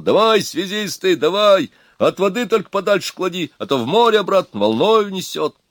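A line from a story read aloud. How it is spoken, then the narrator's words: Hoarse, strained shouting. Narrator (Russian): Сорванным голосом Тимохин кричал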